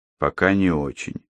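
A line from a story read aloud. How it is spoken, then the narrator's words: Dry reply. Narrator (Russian): сухо отозвался Андрей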